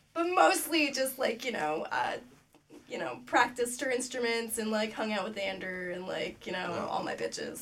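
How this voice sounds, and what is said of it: Hoarse voice. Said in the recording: “is that why your voice is so hoarse? ... So hoarse from all the singing.”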